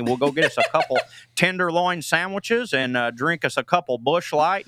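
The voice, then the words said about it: Exaggerated Midwestern accent. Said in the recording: “I can do an accent ... my Midwest accent”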